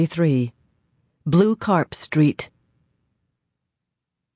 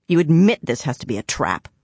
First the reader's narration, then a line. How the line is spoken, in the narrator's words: she growled at him